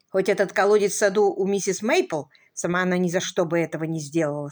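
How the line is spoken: Plain. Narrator (Russian): сказала

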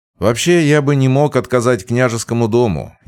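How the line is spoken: Wry snort. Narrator (Russian): я хмыкнул

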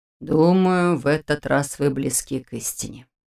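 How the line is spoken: Sighing. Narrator (Russian): вздохнул Нев

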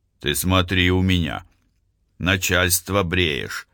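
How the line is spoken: Grumpy grumbling. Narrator (Russian): Сварливо ворчал Пахомов

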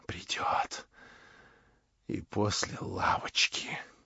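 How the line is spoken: Contemptuous whisper. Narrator (Russian): прошептал он, подумав, и брезгливое презрение выразилось в лице его

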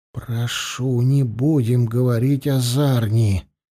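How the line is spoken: Barely audible plea. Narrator (Russian): едва слышно попросил ворак

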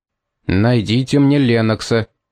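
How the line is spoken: Menacing order through clenched teeth. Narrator (Russian): стиснув зубы, снова грозно приказал Пит

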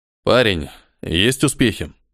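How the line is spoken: Tired, hopeless question. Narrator (Russian): Устало спросил, особо ни на что не надеясь

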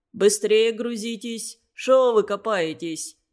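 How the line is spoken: Hoarse shout, then coughing. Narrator (Russian): крикнул хрипло и закашлялся

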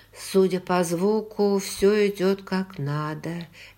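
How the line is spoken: Soft. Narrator (Russian): мягко сказала я

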